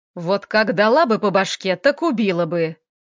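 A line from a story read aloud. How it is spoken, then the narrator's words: Barked, woman. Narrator (Russian): Рявкнула она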